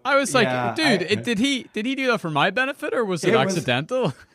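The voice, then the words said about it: Irish accent. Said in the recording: “your very classy Irish accent”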